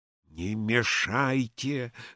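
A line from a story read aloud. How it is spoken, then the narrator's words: Whispered. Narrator (Russian): шептал Евсей Львович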